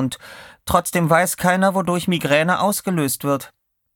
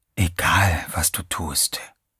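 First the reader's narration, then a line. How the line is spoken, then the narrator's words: Whispering inner voice. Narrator (German): flüsterte eine Stimme in Teddys Kopf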